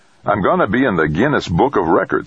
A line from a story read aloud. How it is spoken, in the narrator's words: he proclaimed happily